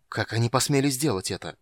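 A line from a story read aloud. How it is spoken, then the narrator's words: Restrained angry hiss. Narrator (Russian): прошипел Танис, едва сдерживаясь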